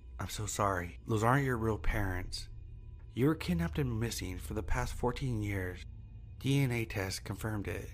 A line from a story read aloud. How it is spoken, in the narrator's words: With a horrified expression muttered